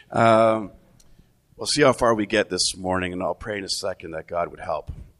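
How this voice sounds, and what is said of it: Sick, strained voice. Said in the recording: “I haven't been feeling well lately... it sort of has just settled in my chest and my voice. And I'm probably going to cough. My voice is going to give out at some point”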